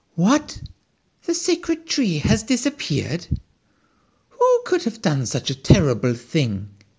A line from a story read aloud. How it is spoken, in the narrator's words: exclaimed the squirrel